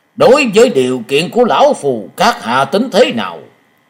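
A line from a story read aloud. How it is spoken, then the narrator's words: Threatening. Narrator (Vietnamese): với giọng uy hiếp hắn nói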